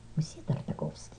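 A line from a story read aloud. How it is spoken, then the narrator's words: Quiet reply. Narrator (Russian): ответил ему Беня Крик тихим голосом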